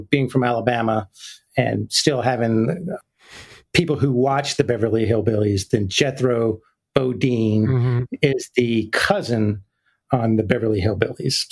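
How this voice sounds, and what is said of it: Thick Southern US accent. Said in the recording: “I had a much thicker accent than I do right now. ... pretty thick uh, right now. ... a thicker Southern accent”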